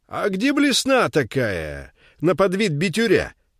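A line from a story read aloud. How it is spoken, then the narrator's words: Yelling from the storeroom. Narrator (Russian): орал Чудик из кладовой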